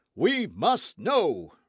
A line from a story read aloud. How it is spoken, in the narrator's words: roared the impatient voices